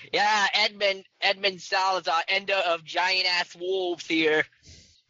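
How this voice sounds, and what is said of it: Shouting loudly. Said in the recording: “I'm gonna keep yelling on the caravan.”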